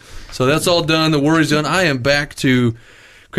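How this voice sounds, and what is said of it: Usual voice. Nothing is said of it.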